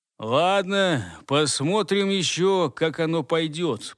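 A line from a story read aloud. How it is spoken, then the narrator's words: Tired inner thought, yawning. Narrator (Russian): подвел про себя промежуточную черту Гортер и устало зевнул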